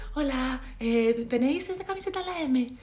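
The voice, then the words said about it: Silly, overly polite shop voice. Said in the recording (Spanish): “cambias mucho el tono ... como que me cambia la voz ... se me pone con una voz de tonta ... voz de muy educada”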